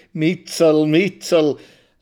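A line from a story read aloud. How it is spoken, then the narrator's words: Laughing through a crooked mouth. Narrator (German): lacht er mit seinem schiefen, hässlichen Mund unter der zerdrückten Nase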